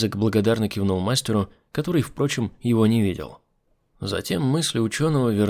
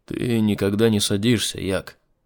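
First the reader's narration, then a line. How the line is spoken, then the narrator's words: Calm statement. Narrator (Russian): спокойно констатировал он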